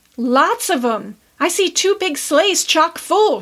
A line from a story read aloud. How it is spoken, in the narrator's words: shouted Seth